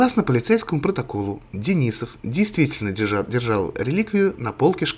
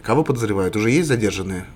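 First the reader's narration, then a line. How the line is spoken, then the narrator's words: Plain. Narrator (Russian): спросил Николай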